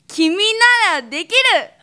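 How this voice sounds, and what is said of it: Slow, emotional impression of another person. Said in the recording (Japanese): “ティモンディ高岸さんのほっちゃんのモノマネ ... ゆっくりよな ... 感情がすごいこもってる喋り方 ... 多少ちょっと頑張って似せたつもりなんですけどね”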